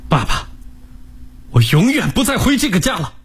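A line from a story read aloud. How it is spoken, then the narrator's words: Loud declaration. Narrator (Chinese): 大声地说道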